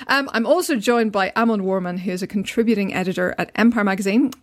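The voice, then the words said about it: Attractive speaking accent. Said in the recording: “your accent is just so sexy”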